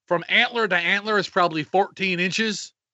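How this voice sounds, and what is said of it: Put-on Southern US accent. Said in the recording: “I said that with a southern accent.”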